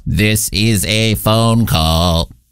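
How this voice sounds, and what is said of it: Robot voice. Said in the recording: “not an actual robot. I was doing a voice.”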